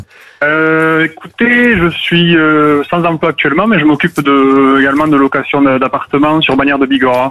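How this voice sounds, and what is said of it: Slight Pyrenees regional French accent. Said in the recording (French): “un petit accent des Pyrénées que j'entends”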